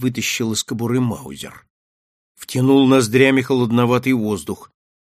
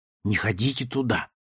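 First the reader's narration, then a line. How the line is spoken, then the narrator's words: Wary whisper, boy. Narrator (Russian): Мальчик-механик шепнул опасливо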